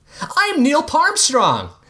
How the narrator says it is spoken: he shouted

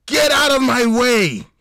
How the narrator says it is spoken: he screamed, ignoring the fact that the siren was drowning out his words

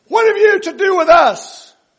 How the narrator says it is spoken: they cried out

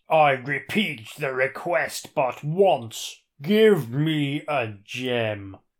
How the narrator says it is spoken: the statue roars

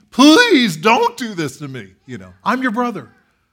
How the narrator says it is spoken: He is pleading

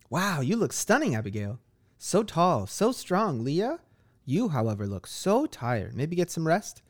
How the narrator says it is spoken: giggles to herself as she playfully converses

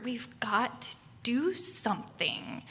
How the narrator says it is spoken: to my husband, Neil, and just whisper

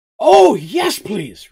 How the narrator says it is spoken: replied Mugen excitedly

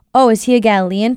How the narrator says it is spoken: Pilate asked

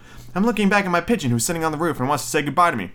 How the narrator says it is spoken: answered Hansel

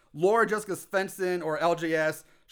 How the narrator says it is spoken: she screams

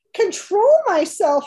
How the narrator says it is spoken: yelled Fern

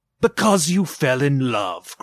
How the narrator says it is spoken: growled Scrooge, as if that were the only thing in the world more ridiculous than a Merry Christmas

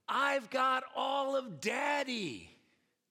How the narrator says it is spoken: the 8-year-old proclaimed so proudly and so loudly

